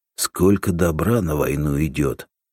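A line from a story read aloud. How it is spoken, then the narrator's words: Sigh. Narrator (Russian): вздохнул Семен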